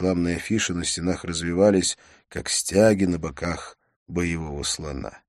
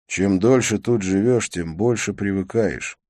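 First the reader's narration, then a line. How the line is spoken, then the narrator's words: Sigh. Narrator (Russian): вздохнул я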